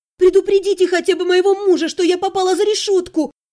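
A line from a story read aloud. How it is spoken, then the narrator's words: Shouting. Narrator (Russian): закричала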